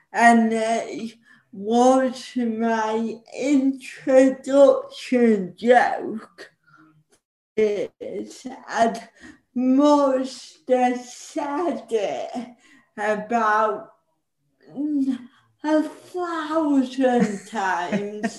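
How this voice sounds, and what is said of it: Northern English accent. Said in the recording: “as you can tell from my voice, I suffer from being northern.”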